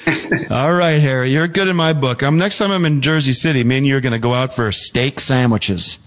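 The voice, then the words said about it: Imitated accent of co-host. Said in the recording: “Can you do an impression of me? ... I don't know if that's a good accent or what”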